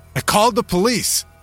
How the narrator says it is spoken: shouted

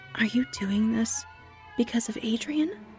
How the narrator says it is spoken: whispered

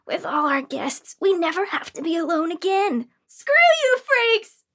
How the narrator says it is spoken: yelled back, tears of frustration and betrayal forming in my eyes

